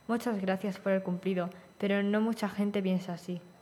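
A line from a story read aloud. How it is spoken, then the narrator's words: Sadder tone. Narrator (Spanish): continuó con un tono más triste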